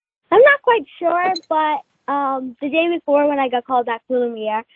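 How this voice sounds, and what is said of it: Usual voice. Nothing is said of it.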